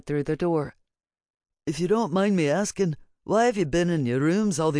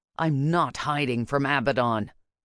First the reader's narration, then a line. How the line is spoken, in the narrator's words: I snarled